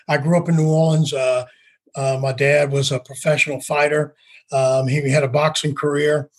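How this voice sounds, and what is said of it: New Orleans accent. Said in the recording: “I'm from New Orleans. My accent will come out when I start thinking about home.”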